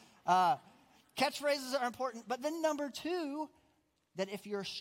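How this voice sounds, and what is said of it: Usual voice. Nothing is said of it.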